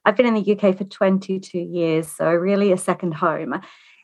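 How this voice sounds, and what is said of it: Australian accent. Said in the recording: “I'm Australian. You might be able to tell that from my accent.”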